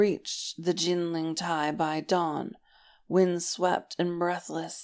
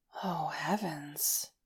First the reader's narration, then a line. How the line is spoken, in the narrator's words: Lan Xichen said faintly